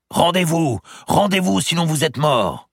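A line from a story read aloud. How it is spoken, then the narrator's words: Shouting. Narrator (French): crie-t-on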